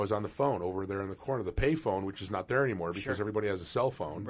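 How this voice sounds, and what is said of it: Usual voice. Nothing is said of it.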